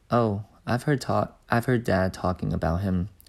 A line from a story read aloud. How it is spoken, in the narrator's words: said George